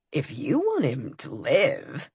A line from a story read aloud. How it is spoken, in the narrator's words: Dagon purred